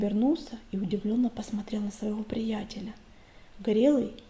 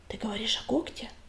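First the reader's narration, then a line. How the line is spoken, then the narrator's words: Whispered question. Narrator (Russian): шепотом спросил Огонек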